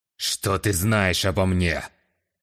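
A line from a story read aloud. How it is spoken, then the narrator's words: Threatening growl. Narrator (Russian): С угрозой в голосе прорычал Кавим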